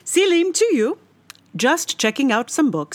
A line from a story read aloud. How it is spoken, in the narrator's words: said cheerfully